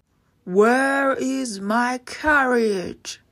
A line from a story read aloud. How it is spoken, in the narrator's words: the giant would roar